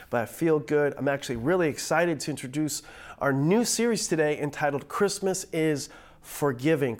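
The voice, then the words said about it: Nasal voice from a cold. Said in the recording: “I'm fighting a little cold today ... I sound a little nasally”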